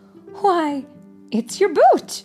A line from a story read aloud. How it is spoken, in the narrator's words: exclaimed Pokey's mother